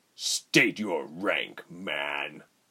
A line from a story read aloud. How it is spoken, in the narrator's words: Rubens turned coldly